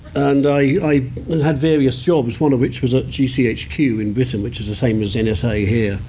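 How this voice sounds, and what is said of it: British accent. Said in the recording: “I'm British, you can tell by the accent.”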